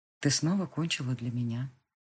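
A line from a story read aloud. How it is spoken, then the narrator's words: Confident whisper. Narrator (Russian): самоуверенно прошептал Габриэль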